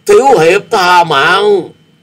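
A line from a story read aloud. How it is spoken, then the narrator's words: Terrified strained scream. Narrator (Vietnamese): Tên này kinh hãi khôn xiết, gắng gượng gào lên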